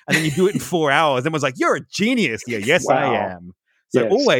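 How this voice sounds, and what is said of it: Usual voice. Nothing is said of it.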